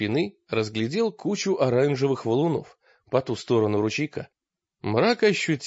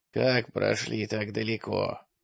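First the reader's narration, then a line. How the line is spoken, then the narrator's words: Sudden creaky question. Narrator (Russian): спросил, внезапно сказал он скрипучим голосом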